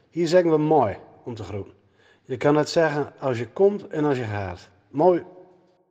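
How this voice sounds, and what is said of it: Groningen regional Dutch accent. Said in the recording (Dutch): “Ik spreek met een Gronings accent.”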